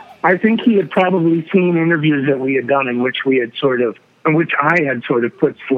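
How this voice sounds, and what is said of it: Usual voice. Nothing is said of it.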